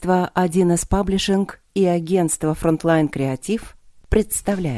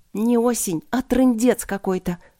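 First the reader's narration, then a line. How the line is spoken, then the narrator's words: Swearing through gritted teeth. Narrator (Russian): ругалась я сквозь зубы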